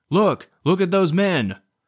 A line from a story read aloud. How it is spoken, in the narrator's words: A member of Stevens' battery shouted